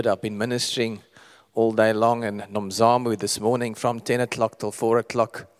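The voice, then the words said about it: Creaky, slightly hoarse voice. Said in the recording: “my voice is creaking a little bit”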